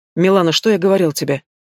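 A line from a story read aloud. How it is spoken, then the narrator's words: Stern. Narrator (Russian): Строго произносит мужчина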